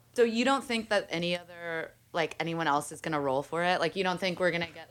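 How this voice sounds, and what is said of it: Sped-up sounding voice. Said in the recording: “What is that voice? ... You sound sped up.”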